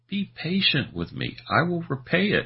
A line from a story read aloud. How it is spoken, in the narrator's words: he pleaded